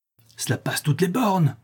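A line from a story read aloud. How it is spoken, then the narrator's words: Furious exclamation. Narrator (French): s'écria ma belle-mère avec rage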